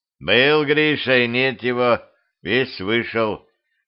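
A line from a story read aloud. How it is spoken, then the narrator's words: Grim joke. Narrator (Russian): мрачно пошутил Петрович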